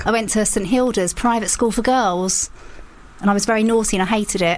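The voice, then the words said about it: Essex English accent. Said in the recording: “Can you tell the Essex accent? ... As soon as you mentioned it, I went, that makes a lot of sense.”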